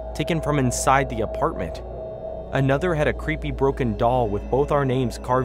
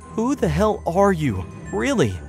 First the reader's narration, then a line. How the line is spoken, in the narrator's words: I asked, my voice trembling with both anger and fear